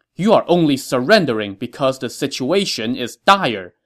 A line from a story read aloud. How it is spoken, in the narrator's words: Ma Chao told the governor angrily